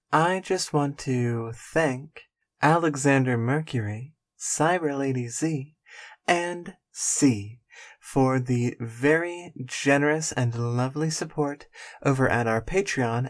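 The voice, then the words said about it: Speaks in a soft whisper. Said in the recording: “It's very late at night, so I'm whispering a little bit.”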